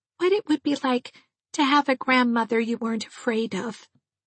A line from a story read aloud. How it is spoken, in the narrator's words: she said to me wistfully